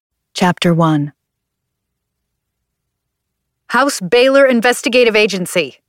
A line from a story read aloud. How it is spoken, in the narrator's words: I shouted